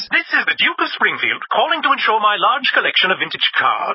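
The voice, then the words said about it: Fake aristocratic accent. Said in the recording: “the fake accent”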